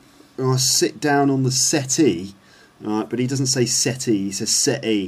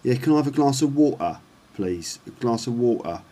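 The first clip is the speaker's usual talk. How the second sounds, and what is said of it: London accent with glottal stops. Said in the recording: “that sort of London accent, that the T sound isn't really pronounced like a T sound. Okay, instead it gets pronounced with a kind of glottal stop”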